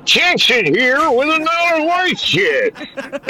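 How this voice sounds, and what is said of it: Imitates another person's voice. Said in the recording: “The Jackson impersonations”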